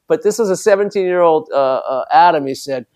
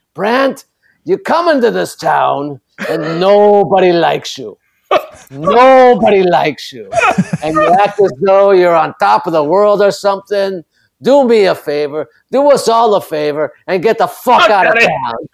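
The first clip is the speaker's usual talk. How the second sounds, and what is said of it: Thick Jewish New York old-man accent. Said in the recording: “he had a thick Jewish accent for a 17-year-old kid. He seemed like an old man. ... He sounded like an old man at a deli in New York.”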